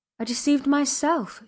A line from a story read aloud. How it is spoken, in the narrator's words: she exclaimed